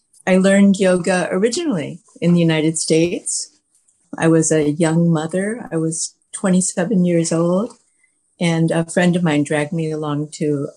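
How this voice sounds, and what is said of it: American accent. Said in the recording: “You might detect U.S. accent because I was born in Chicago ... I think I'll always have this accent”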